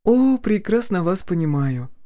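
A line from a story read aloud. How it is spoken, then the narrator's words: Sigh. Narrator (Russian): вздохнула Полина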